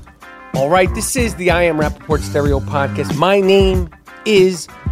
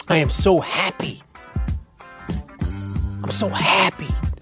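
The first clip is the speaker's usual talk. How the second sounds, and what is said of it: Imitates another person's voice. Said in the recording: “my DJ Khaled impression”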